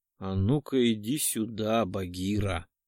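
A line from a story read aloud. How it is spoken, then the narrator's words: Soft ingratiating voice. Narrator (Russian): Вкрадчивый голос нежно коснулся барабанных перепонок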